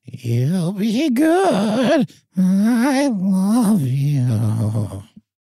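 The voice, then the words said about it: Imitating a talking pet bird. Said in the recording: “the bird said ... your impression ... I'll try my impression again real quick”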